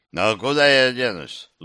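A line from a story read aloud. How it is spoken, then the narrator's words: Sighing. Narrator (Russian): вздохнул Кранк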